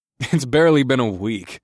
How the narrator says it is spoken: I chuckled

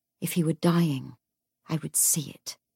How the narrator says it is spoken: Jesse said quietly

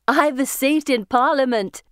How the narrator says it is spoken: she says, laughing

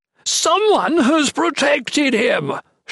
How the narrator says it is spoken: Chatan shrieked, spent, sweating and scared

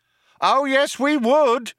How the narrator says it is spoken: shouted the cop

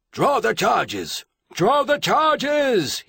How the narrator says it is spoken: he bellowed

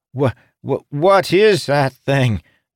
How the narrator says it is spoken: Jacob gasped

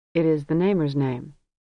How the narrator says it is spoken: He looked at her and said evenly

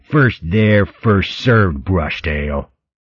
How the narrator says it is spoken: The skinny weasel snarling

